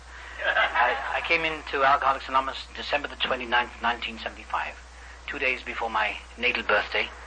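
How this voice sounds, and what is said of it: Speaks with a noticeable accent. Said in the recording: “I'll try and speak slowly because I've got a funny accent.”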